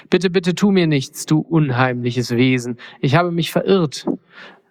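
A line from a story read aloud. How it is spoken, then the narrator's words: Frightened stammering. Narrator (German): stotterte Mondküken verängstigt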